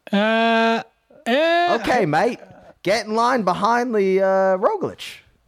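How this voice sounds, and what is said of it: Put-on Australian accent. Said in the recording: “that's my Australian accent”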